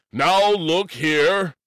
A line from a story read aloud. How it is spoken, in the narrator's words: Alcahest shouted testily